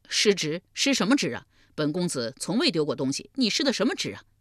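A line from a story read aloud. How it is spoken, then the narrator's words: Laughing. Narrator (Chinese): 重耳笑道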